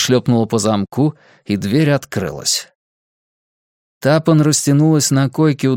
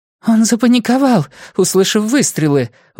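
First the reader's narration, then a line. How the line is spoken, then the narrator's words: Breathless exhale. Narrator (Russian): выдохнула Клейси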